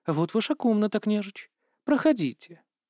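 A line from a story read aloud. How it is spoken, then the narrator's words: Languid, sighing. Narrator (Russian): томно вздохнула и сказала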